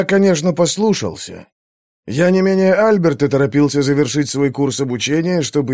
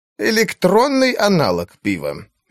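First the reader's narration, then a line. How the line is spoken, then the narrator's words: Sarcastic. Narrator (Russian): язвительно сказал он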